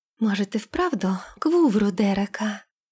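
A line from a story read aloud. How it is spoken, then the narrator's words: Whispered. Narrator (Russian): прошептала Лилейна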